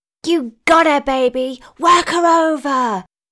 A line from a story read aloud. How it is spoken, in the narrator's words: Tanya shouted, giving her wife some encouragement